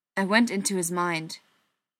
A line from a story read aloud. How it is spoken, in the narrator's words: Wentz said stiffly, as though he knew he was about to take a dressing down for what he was admitting